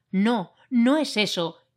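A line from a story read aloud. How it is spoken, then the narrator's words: Exclaiming. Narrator (Spanish): exclamé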